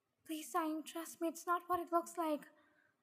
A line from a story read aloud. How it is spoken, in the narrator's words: pleaded